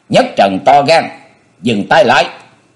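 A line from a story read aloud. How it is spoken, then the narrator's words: Sudden shout. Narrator (Vietnamese): đột nhiên có tiếng quát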